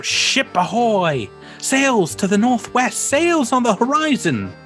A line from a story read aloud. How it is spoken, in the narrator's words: She yells out